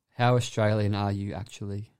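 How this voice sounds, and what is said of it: Australian accent. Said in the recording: “read back in an Australian accent ... Nailed that.”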